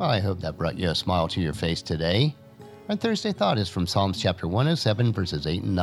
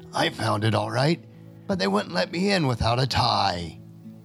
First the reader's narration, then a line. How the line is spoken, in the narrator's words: Frank rasped from his parched throat